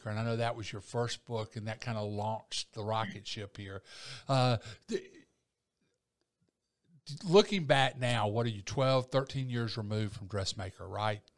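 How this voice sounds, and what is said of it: Southern US accent. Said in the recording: “my lower Alabama accent”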